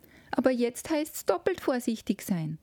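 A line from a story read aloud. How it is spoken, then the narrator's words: Call from a corner. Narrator (German): rief's aus einem Winkel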